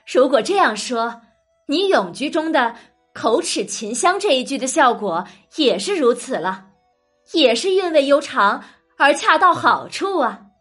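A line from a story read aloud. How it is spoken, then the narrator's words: Laughing. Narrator (Chinese): 李纨笑着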